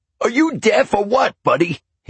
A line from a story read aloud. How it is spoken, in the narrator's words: he yelled